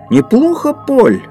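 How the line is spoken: Teacher exclaiming. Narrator (Russian): воскликнул учитель

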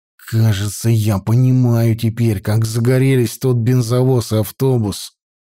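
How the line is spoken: Breathed out. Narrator (Russian): выдохнул Петька

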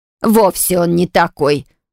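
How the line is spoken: Scornful snort. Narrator (Russian): фыркнула Огмырк

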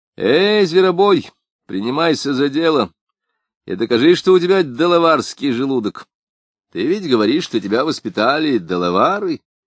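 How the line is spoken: Shout. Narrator (Russian): крикнул Непоседа

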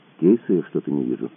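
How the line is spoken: Quiet statement. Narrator (Russian): тихо констатировал Кацуба

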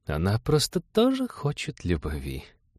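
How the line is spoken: Cooing, meaningful emphasis. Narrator (Russian): проворковала Маша со значением, выделив центральное слово

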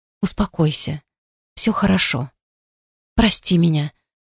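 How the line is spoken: Whispering. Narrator (Russian): снова зашептала я

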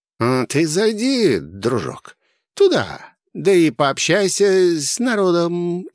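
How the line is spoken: Sugary sly voice. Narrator (Russian): елейным голоском дал кот совет

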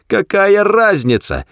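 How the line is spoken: Shouting. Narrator (Russian): прокричал Артур

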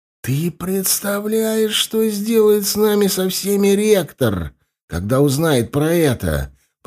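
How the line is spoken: Nervous hiss. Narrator (Russian): прошипел Корнелл, опасливо косясь на лестницу

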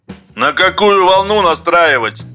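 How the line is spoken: Shouted. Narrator (Russian): крикнул Юрковский

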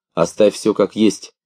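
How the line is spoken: Clear, calm. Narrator (Russian): очень четко и спокойно дошло до меня от женщины из Силандии

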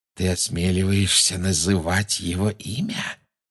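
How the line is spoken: Whisper. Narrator (Russian): прошептала Беллатриса

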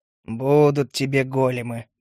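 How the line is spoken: Grumbling. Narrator (Russian): проворчал я

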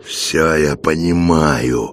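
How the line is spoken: Growling. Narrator (Russian): прорычал Михаил

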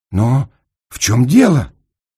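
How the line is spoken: Exclaiming. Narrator (Russian): воскликнул

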